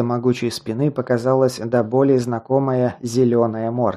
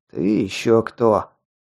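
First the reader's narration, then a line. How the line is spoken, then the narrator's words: Growling bull-faced creature. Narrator (Russian): прорычала бычья морда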